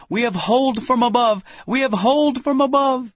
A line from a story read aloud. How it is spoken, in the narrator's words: we would exclaim